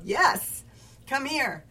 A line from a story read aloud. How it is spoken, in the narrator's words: his wife yelled